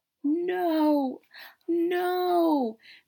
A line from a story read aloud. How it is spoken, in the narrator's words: Joseph cried